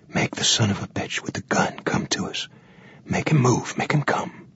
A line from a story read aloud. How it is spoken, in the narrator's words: He whispered